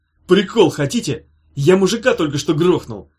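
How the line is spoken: Cheerful shout. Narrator (Russian): жизнерадостно крикнул Петя

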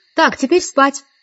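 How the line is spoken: Cheerful command. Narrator (Russian): весело скомандовала я

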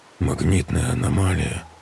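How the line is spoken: Muttering. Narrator (Russian): пробормотал он

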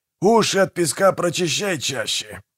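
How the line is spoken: Straining growl. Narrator (Russian): прорычал Манфред, налегая на лом

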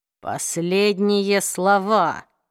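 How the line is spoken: Hissed. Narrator (Russian): прошипел Джейс

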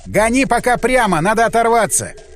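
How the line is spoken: Shout. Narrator (Russian): я крикнул

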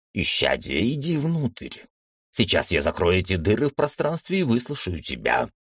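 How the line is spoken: Grumble. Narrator (Russian): проворчал монах

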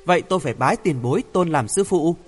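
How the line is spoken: Smiling. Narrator (Vietnamese): Hoàng Thượng Chí mỉm cười nói

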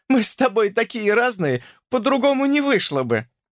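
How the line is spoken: Cheerful chirping girl. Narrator (Russian): весело прощебетала девушка

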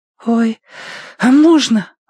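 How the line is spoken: Breathless disbelief. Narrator (Russian): выдохнул Рыжик, не веря чуду

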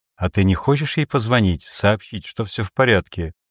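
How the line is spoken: Plain. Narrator (Russian): спросила Сандра

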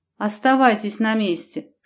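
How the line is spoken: Dry command. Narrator (Russian): сухо приказал земляной

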